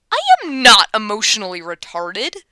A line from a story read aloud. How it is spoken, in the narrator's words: Clyde snaps